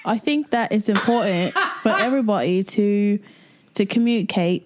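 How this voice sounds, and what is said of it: Put-on accent. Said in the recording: “I'll talk in an accent.”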